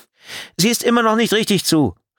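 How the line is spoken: Called out. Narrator (German): rief die Fahrerin

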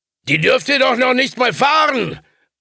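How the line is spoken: Angry call after them. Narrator (German): rief er ihnen hinterher, zornig darüber, bei diesem kurzen Moment der Selbstzufriedenheit ertappt worden zu sein

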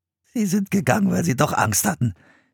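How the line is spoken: Giggling. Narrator (German): kicherte

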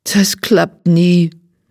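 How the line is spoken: Depressed, dejected. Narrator (German): sagt deprimiert

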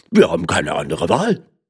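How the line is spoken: Grumbling voices. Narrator (German): sagten brummend

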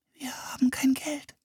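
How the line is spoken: Whispered. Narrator (German): flüsterte

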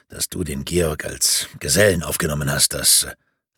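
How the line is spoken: Quiet beginning. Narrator (German): begann er leise

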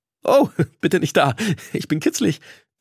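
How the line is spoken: Squeaking. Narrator (German): quiekte ich, als Slay mir tief in die Tasche griff

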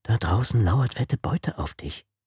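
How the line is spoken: Whisper into ear. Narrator (German): raunte die leichtsinnige Angela ihr ins Ohr

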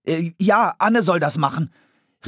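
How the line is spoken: Prompt call. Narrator (German): rief Philipp sofort

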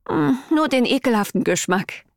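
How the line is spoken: Sighing reply. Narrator (German): erwiderte ich seufzend

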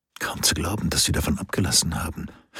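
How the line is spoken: Quiet voice. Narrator (German): sagte Tungdil leise

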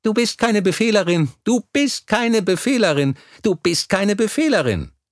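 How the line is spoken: Rhythmic chanting while jumping. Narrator (German): rief er im Takt seiner Sprünge

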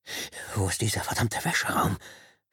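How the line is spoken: Whisper. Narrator (German): flüsterte er

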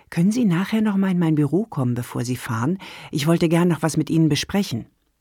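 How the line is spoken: Quiet. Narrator (German): Sandra leise sagte

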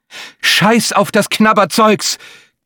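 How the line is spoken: Shriek. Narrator (German): kreischte das Affenhirn, der stärkste Teil von ihr, der sich den Weg in den Vordergrund bahnte

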